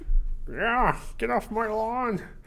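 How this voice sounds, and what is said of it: Put-on grumpy dad voice. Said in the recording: “That's your best dad voice?”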